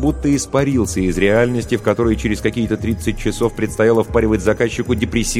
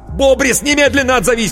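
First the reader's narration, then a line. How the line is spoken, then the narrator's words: Shouting into phone. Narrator (Russian): кричал в трубку Коровин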